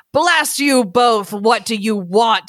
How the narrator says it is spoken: He roars out to them, even so far off

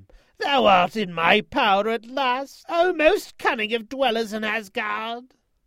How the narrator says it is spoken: The eagle screamed out to him

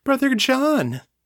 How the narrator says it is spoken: cried

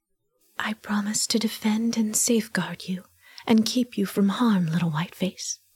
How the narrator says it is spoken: she whispered, fierce and low

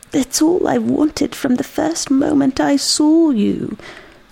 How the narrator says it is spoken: sobbing

